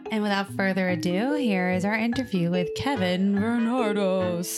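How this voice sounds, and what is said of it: Usual voice. Nothing is said of it.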